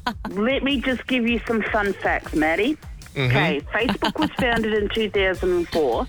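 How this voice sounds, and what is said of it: Strong, noticeable accent. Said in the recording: “I can hear that accent a mile away”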